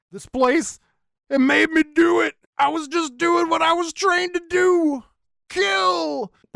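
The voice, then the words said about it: Yelled impression of a film character. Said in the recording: “He yells ... my Harry Collins impersonation, I'm sorry. That wasn't good.”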